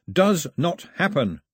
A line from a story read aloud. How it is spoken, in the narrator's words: he shouted at the sky